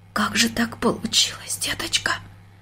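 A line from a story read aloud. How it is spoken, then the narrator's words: Near whisper. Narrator (Russian): почти шепотом спросила она дочку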